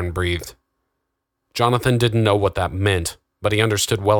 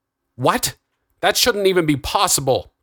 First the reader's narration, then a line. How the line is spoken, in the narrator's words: cried Augustus